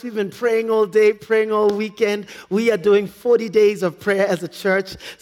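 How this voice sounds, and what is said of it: Strained, worn-out voice. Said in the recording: “Forgive me, I've lost my voice.”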